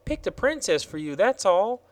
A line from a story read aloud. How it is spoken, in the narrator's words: replied Betsy cheerfully